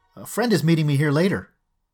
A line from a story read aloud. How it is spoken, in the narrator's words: adding in a far too loud voice